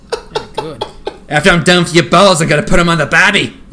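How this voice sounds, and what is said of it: Exaggerated put-on Australian accent. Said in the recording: “just nailing the Australian accent. ... sounds like a drunk guy at a Halloween party making fun of someone dressed like Crocodile Dundee”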